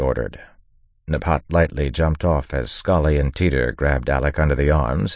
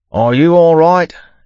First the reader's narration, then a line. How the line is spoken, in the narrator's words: Yimt shouted